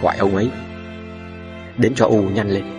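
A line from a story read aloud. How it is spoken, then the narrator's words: Whispering. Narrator (Vietnamese): Thím Pháo thì thào bảo con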